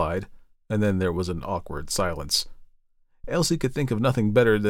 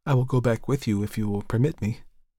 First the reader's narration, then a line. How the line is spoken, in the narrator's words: said timidly